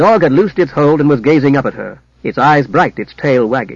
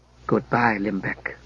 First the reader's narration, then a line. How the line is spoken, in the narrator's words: whispered Jara